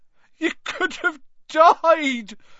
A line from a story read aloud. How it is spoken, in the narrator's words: sobbed Hagrid